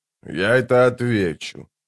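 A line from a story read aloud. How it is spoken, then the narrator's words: Quiet. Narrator (Russian): тихо сказал он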